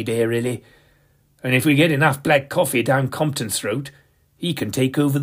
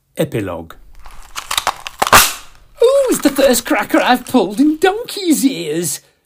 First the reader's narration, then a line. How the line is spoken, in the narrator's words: squealed Compton